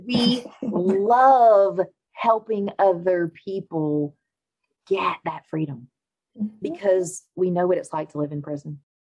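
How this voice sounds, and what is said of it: Speaks with a distinctive accent. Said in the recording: “fabulous accent”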